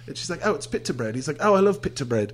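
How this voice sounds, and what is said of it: Good put-on British accent. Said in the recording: “you do a very good British accent”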